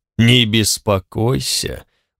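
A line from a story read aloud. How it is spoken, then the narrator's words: Tired. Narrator (Russian): устало сказал Черно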